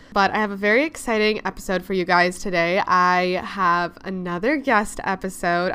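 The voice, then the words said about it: Congested, recovering voice. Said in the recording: “getting back from losing my voice ... I definitely sound a little bit congested”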